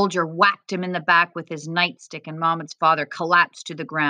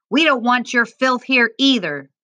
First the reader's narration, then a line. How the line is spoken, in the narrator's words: the guard yelled in Arabic